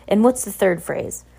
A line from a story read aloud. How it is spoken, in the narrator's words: The scout sighed